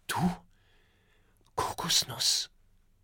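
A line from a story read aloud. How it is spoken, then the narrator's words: Whispering. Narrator (German): flüstert Oskar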